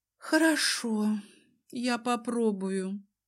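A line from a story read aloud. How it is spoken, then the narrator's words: Sighing. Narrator (Russian): вздохнула я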